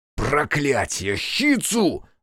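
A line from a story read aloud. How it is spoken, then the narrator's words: Roaring. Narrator (Russian): взревел Аяшики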